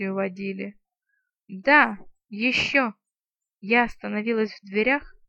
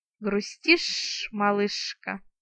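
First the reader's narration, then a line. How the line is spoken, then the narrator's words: Sympathetic hiss. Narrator (Russian): сочувственно прошипела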